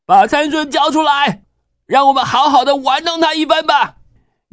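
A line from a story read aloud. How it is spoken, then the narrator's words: Shouting. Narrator (Chinese): 喊着说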